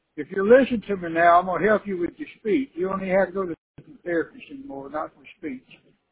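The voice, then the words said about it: Southern US accent. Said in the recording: “talk like you're from the South, get that Southern accent ... Even God talks like we do”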